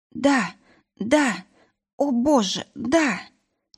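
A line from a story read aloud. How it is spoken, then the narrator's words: Gasping, moaning. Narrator (Russian): Я захлебывалась выдохами и стонами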